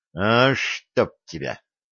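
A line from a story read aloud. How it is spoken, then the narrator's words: Angry curse. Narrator (Russian): Кошкин в сердцах чертыхнулся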